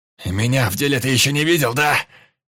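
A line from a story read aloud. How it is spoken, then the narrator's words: Yelling. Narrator (Russian): орал Петр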